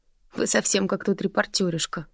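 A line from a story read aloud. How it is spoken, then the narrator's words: Snorting. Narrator (Russian): фыркнул Бор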